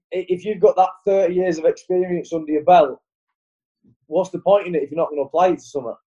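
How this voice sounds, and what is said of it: Northern English accent. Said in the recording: “northern accent ... I am just trying to pin your accent. It's it it Rochdale”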